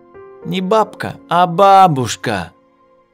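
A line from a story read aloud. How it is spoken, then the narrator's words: Preachy drawn-out. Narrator (Russian): Назидательно протянул Коленька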